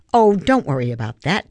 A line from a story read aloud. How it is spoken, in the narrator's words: Tia said